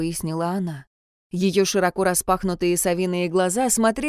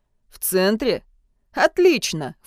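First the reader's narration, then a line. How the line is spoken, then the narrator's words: Snorted. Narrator (Russian): фыркнул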